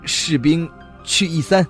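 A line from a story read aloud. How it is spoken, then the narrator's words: Calling out. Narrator (Chinese): 周海然后他喊了一声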